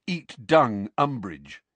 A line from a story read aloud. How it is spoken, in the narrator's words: in a booming voice